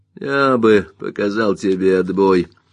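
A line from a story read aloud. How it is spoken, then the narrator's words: Grumble. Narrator (Russian): пробурчал Маккон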